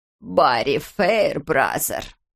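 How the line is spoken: Drawn-out exclamation. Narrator (Russian): протянула Парминдер

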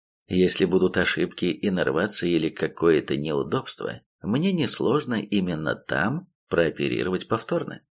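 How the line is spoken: Gentle smiling tone. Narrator (Russian): мягко улыбнулся ей я

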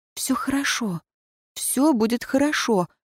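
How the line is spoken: Whisper. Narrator (Russian): прошептала

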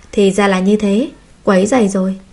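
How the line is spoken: Smiling. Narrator (Vietnamese): Hoa Nhất Đường mỉm cười

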